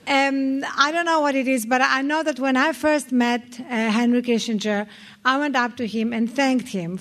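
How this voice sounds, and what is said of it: Noticeable foreign accent. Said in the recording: “this accent is for real ... Tracy Ullman started imitating my accent rather well ... why are you still speaking with an accent?”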